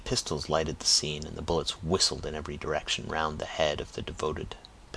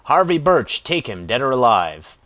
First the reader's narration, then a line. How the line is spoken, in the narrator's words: the stentorian voice of Lawton rang through the valley, shouting